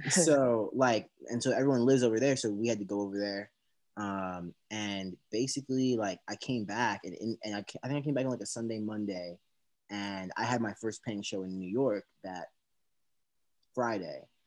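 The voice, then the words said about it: American accent. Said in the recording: “I'm the only one in my family with an American accent.”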